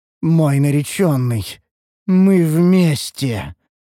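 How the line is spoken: Eerie otherworldly voice. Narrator (Russian): заявила эльфийка потусторонним голосом

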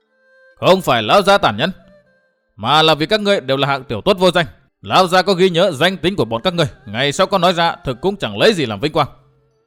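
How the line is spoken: Loud shout. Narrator (Vietnamese): Hùng Phi quát vang

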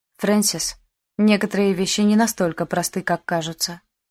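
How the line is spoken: Quiet. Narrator (Russian): тихо сказал сэр Финли со своего места

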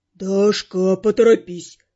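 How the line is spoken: Grumbled. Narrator (Russian): буркнул он

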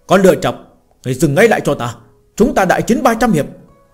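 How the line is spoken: Loud shout. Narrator (Vietnamese): Lâm Phàm hét lớn

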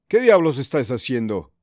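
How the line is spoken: Shouted. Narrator (Spanish): gritó

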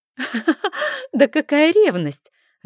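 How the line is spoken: Loud laughter. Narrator (Russian): расхохоталась я

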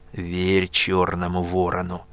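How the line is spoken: Through gritted teeth. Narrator (Russian): процедил Нечай

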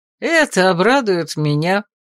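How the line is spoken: Cheerful exclamation. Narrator (Russian): Весело воскликнул Томин

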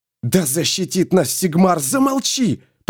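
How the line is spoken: Hissing. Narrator (Russian): прошипел Феликс

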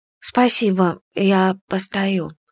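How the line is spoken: Hoarse, frightened answer. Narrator (Russian): ответила я охрипшим от страха голосом

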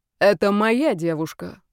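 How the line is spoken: Icy voice. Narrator (Russian): сказала Настя все тем же ледяным голосом

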